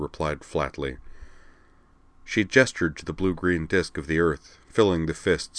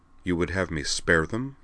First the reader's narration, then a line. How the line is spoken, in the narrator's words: he demanded, his voice rising just a touch into that very dangerous zone of quietness